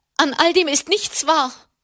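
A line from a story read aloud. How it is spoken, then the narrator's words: Loud shout. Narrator (German): rief sie laut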